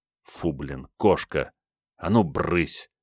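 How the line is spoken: Through gritted teeth. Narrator (Russian): процедил чуть не выстреливший Керст

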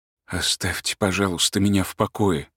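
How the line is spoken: Quiet reply. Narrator (Russian): тихо ответил Турбин

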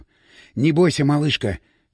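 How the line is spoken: Whisper. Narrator (Russian): шепнул он

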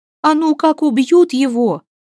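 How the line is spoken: Exclaiming, matter-of-fact. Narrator (Russian): воскликнула Негоча, дескать, чего тут непонятного

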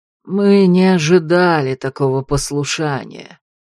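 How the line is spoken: Ironic lazy drawl. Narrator (Russian): с ироничной линцой протянул еще один знакомый голос

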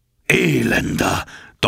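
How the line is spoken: Thundering captain. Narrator (German): donnerte der Kapitän

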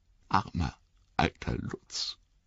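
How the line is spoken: Choked voice. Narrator (German): sagte mit erstickter Stimme

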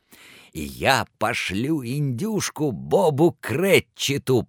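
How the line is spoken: Delighted mutter, bursting laughing. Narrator (Russian): пробормотал Скрудж и от восторга так и покатился со смеху

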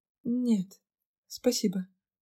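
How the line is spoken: Quiet reply. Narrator (Russian): тихо ответила

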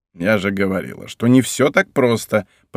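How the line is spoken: Grumbling. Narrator (Russian): проворчала она

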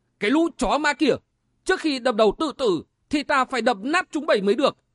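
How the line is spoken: Furious loud shout. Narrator (Vietnamese): Nghiêm Tiếu Thiên bị mắng như thế thì tức điên lên, quát to

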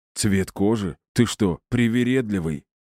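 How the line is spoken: Bandit's hoarse chuckle. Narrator (Russian): Хрипло усмехнулся бандит

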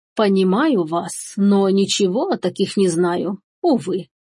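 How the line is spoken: Sigh. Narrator (Russian): вздохнула Анна

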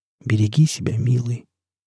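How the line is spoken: Quiet, breathy. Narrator (Russian): тихо, с придыханием сказать

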